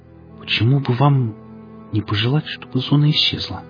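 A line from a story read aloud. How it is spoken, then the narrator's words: Quiet question. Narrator (Russian): тихо спросил Ахип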